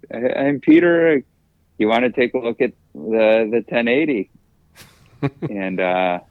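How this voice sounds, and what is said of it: Put-on Swedish accent. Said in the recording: “in his kind of Swedish accent”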